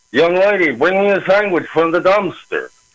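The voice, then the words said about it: Impression blending two character voices. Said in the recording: “you put the two voices together ... That's a really good impression ... George Jessel was the other voice”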